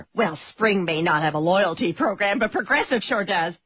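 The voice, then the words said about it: Chatty neighbor character voice. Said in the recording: “this is my impression of your neighbor who really likes to talk about the weather”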